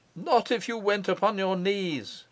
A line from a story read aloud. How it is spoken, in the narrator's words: he cried